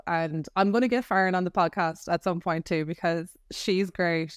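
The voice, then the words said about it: Irish accent. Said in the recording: “my accent ... there's an Irish girl”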